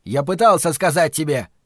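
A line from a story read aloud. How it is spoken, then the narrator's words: Shouted. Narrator (Russian): выкрикнул он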